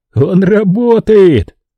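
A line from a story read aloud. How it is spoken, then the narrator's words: Laughing repetition. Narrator (Russian): повторил Марк, смеясь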